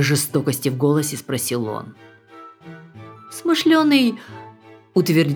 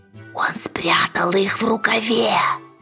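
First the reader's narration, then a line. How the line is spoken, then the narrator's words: Whispered. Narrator (Russian): прошептал смышленый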